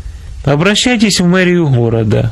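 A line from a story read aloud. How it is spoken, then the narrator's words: Plain. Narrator (Russian): ответил комиссар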